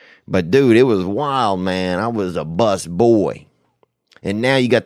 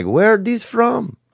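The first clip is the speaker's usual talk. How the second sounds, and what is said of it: Put-on French accent. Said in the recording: “that was a French accent, so don't even come at me. I do French how I want to do French.”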